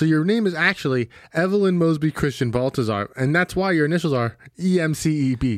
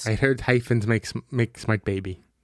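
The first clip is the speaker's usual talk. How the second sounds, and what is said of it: Put-on Filipino accent. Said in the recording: “That's my Filipino accent.”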